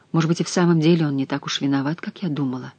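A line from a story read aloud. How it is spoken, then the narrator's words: Muttered. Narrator (Russian): пробормотала она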